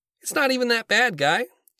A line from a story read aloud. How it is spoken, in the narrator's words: Jerry chirps in